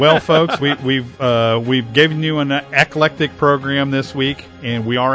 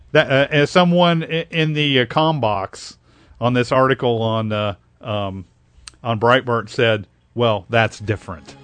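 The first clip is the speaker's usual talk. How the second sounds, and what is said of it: Sarcastic tone. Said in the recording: “Being sarcastic, of course.”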